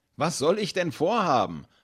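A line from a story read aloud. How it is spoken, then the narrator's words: Laughing. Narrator (German): hat Finn lachend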